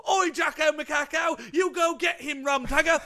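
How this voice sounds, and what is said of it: Put-on Cockney English accent. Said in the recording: “It would be like an English accent, wouldn't it? Like Cockney.”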